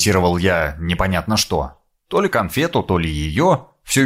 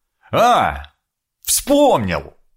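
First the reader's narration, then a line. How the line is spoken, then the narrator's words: Happy triumphant exclamation. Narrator (Russian): Со счастливым лицом, будто решил сложнейшую задачу, воскликнул я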